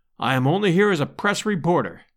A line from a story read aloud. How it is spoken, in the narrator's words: I answered